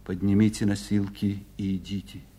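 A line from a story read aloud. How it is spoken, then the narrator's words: Quiet. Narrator (Russian): тихо сказал Серпилин бойцам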